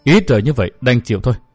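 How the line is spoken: Sighing. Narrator (Vietnamese): Thiên nữ Trần Kim Tiếu thở dài nói

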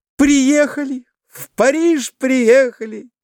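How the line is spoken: Joyful. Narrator (Russian): радостно произнесла Глафира Семеновна

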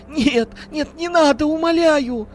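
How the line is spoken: Sobbing woman. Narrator (Russian): Рыдала женщина

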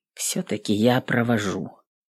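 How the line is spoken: Quiet speech. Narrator (Russian): тихо сказал он

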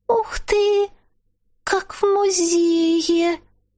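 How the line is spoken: Squeaky child's voice. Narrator (Russian): Пропищал детский голосок

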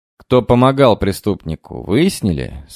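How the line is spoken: Plain. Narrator (Russian): спросил я

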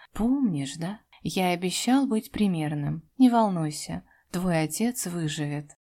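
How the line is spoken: Affectionate, smiling. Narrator (Russian): улыбнулся ласково

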